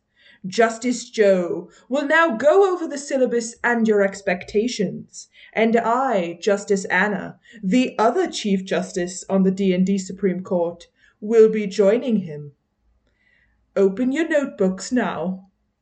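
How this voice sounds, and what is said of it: Put-on British accent. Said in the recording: “that lovely British accent”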